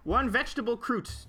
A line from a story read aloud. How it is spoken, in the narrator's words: yelled Stacy in the general direction of the kitchen